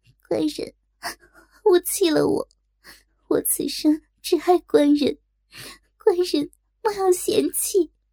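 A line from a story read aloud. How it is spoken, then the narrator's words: Reproachful, holding back tears. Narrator (Chinese): 若真心伤神乱，止住哭，嗔道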